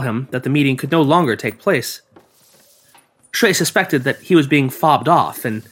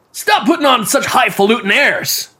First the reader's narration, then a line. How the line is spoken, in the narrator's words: shouted